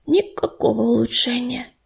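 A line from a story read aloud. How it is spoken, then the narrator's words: Whisper from behind. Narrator (Russian): шепнула за его спиной ласточка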